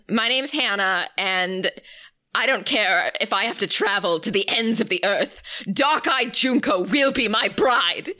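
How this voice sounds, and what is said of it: Dramatic villain character voice. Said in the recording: “Was that a Frollo impression? ... kind of sort of an off-brand Phantom of the Opera kind of thing ... maybe combination Frollo Phantom”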